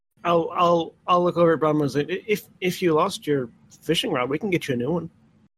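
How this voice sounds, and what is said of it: Character voice with shifted accent. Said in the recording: “your accent changed really quick... His accent intentionally changes very rapidly... a different accent every time”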